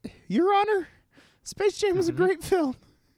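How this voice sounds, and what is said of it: High-pitched imitation of another person's voice. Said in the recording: “change your voice ... can you do it like that? ... Scott doesn't actually talk in that high voice. ... Yeah, it's a lot lower.”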